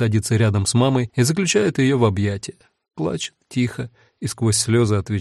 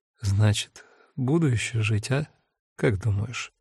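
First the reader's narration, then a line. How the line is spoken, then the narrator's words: Quiet question. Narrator (Russian): Мама Маринки спрашивает тихо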